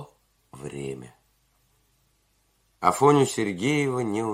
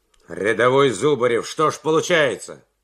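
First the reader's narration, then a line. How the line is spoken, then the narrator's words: Stern question. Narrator (Russian): строго спросил майор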